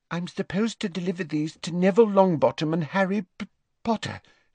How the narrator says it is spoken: she faltered, as her eyes met Harry's and she turned scarlet

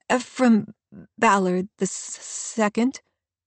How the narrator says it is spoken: he stammers

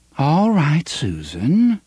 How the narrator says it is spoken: she said in a calm, modulated voice

